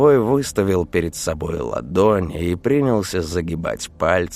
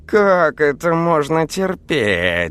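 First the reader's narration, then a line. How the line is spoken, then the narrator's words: Howled. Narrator (Russian): взвыл кот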